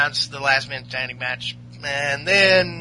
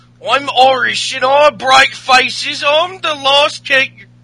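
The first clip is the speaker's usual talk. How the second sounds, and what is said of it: Weak Irish accent, sounds British. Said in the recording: “Irish accent ... It's more British, if anything ... not to do any Irish accent ... It's too hard”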